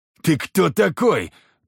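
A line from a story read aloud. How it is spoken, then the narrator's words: Growling leader. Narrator (Russian): прорычал главарь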